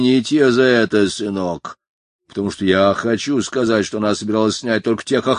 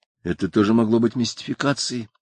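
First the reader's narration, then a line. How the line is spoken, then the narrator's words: Whisper. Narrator (Russian): прошептал Кевин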